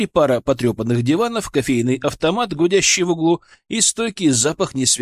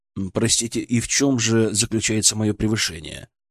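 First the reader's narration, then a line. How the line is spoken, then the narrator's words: Completely calm. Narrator (Russian): Я задал этот вопрос совершенно спокойным тоном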